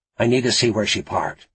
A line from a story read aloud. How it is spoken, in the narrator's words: Frost said